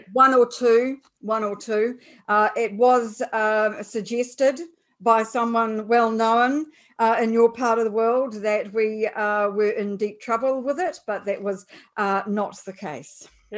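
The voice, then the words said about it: New Zealand accent. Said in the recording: “I'm a New Zealander, apart from my accent, of course, which people like to make fun of.”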